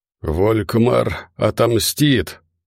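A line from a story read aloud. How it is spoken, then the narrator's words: Hoarse rasp. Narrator (Russian): прохрипел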